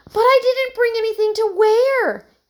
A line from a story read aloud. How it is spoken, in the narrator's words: Emily exclaimed